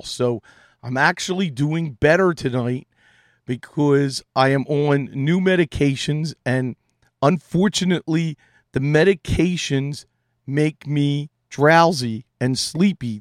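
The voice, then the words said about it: Strained, failing voice. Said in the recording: “I think it's very obvious, I am losing my voice.”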